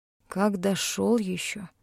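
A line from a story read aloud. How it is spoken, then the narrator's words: Muttering. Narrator (Russian): пробормотал Лем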